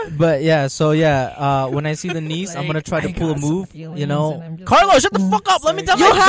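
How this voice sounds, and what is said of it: Usual voice. Nothing is said of it.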